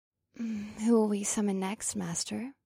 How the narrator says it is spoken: Penelope whispered

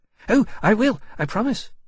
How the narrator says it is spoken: Levitas said at once, bobbing his head anxiously

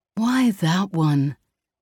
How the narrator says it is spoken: moaned in protest

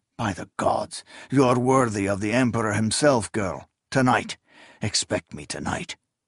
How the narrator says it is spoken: exclaimed

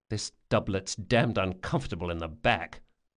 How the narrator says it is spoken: Locke muttered

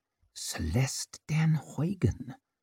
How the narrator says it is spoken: murmured Orso

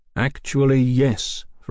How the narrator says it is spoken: Fraser said slowly

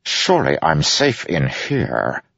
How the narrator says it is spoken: Adolin said through gritted teeth

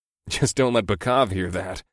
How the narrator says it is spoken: chuckled

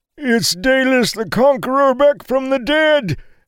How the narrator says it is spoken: an old man screamed

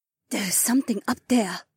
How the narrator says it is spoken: Haywan said quietly

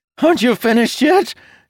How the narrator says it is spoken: Jacob hollered

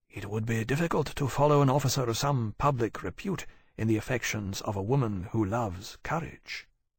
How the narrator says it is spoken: Tharkay said quietly

